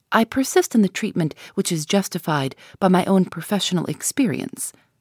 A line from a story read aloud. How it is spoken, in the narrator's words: said Mr